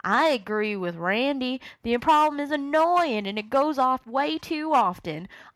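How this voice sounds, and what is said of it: Put-on Southern American accent. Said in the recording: “doing everyone's voice. And you have about four different voices going ... Great southern accent”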